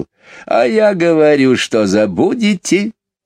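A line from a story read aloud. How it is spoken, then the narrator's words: Laughing bird. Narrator (Russian): рассмеялся скворец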